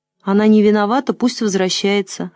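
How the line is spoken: Plain. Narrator (Russian): ответила Светка

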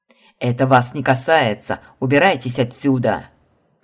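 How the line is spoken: Angry bark, hidden fear. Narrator (Russian): Гневно рявкнул Марат, но в его голосе проскользнули обреченность и страх

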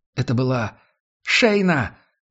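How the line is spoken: Joyful exclamation. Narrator (Russian): радостно воскликнула Несс

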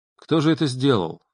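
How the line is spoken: Plain. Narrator (Russian): спросил я сержанта

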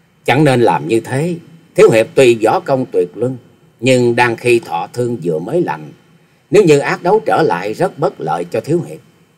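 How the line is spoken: Smiling young woman. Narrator (Vietnamese): Thiếu nữ mỉm cười

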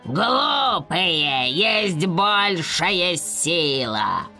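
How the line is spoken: Growled, dark knight. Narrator (Russian): прорычал темный рыцарь

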